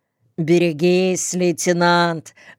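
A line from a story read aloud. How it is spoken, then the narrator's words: Laughing. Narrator (Russian): засмеялся кто-то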